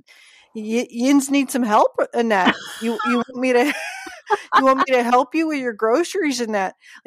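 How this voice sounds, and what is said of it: Cute imitated Pittsburgh accent. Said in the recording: “they'll say in a cute little accent”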